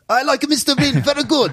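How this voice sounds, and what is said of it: Generic put-on foreign accent. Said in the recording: “that your Japanese impression? ... No, that wasn't a Japanese impression. ... That was just a generic... ... I don't know what accent that is.”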